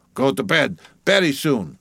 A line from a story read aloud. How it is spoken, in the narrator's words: he mumbled, half turning as he spoke